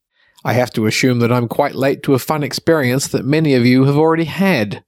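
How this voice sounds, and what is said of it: Sick, ill-sounding voice. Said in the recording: “Got myself a spot of COVID... you can hear it in my voice.”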